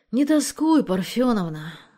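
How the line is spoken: Sighing, pleading. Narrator (Russian): вздохнув, попросил Анатолий

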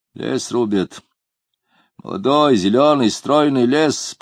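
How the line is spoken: Gloomy quoting voice. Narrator (Russian): процитировал мрачным голосом кто-то за спиной у Самгина

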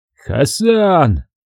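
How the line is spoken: Shouted. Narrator (Russian): выкрикнул я

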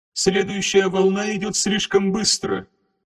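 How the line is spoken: Creaky mechanical voice. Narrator (Russian): скрипучим механическим тоном сообщила Тесс Шаром

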